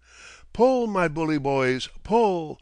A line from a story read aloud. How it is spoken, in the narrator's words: roared back the old familiar chorus